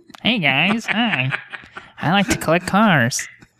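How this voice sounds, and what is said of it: Imitates another person's voice. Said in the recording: “my Jay Leno impression ... How terrible stupid. Impression.”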